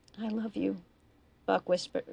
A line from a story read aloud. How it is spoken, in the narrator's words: Running Buck whispered back